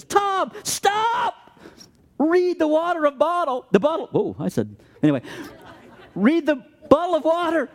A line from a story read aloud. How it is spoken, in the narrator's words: my wife yells at me, and she says